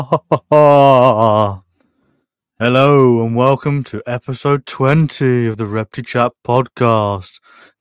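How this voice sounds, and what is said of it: Spooky voice. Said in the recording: “This is my spooky voice.”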